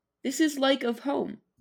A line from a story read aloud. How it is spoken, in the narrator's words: said, smiling faintly